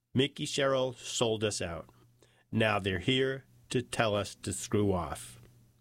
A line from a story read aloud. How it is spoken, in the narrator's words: he said